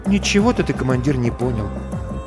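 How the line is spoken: Quiet. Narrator (Russian): тихо говорит Маринка

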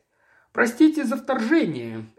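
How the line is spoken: Sharp, abrupt. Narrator (Russian): резко начал Гарленд

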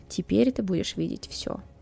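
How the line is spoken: Soft whisper. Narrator (Russian): тихо прошептал

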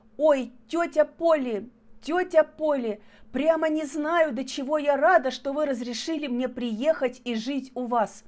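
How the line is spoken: Sobbing speech. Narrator (Russian): всхлипывая, говорила она

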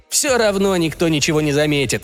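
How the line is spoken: Scoffing snort. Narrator (Russian): фыркнет Аарон

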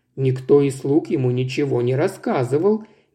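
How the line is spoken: Old gentleman objecting gently. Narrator (Russian): мягко возразил старый джентльмен

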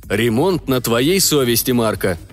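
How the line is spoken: Stern. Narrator (Russian): строго сказал капитан

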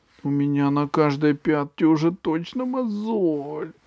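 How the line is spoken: Whining, female. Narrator (Russian): скулила она

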